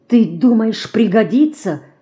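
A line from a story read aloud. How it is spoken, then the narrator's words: Frightened whisper. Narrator (Russian): испуганным шепотом спросил Ухо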